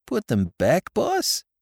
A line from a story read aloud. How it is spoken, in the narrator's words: he faltered